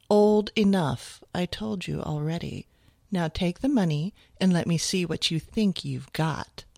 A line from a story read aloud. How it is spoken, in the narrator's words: Her voice was silky and sophisticated as she said